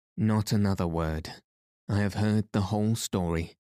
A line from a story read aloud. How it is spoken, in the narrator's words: said Aunt Elizabeth grimly